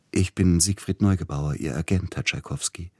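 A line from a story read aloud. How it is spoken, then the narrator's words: Gentle voice. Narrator (German): sagte mit sanfter Stimme der Mann an der Türe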